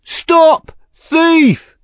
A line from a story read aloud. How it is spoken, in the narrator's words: cried